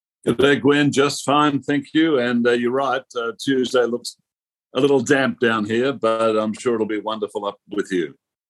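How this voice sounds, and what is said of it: Australian accent. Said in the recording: “by my funny accent ... I am Australian”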